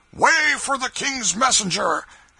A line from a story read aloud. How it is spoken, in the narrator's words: a voice shouted